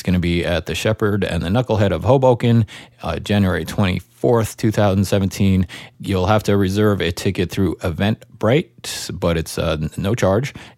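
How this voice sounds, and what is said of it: Slightly raspy voice. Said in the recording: “I feel like my voice is a little raspy today”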